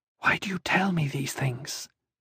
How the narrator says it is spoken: She whispered

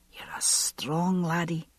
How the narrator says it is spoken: he had whispered

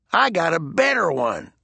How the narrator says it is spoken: Blister sneered

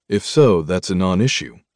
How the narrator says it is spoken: I said coolly

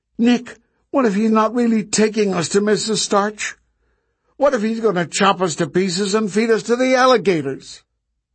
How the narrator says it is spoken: Suddenly, Marta blurted

